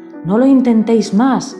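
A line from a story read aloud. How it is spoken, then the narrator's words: Shouting. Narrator (Spanish): gritaban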